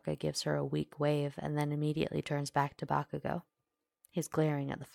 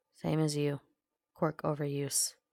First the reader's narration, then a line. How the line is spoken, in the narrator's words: grunts